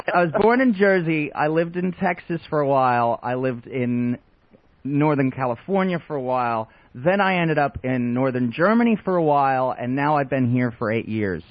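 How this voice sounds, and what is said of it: Mixed accent shifting mid-sentence. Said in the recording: “you do talk funny ... my accent is a mutt ... I seemed to change accents in the middle of a sentence”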